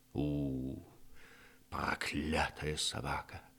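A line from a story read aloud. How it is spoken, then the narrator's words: Grumble. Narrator (Russian): проворчал он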